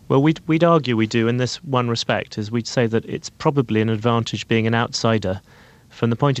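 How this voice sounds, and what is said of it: British accent. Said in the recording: “your British accent”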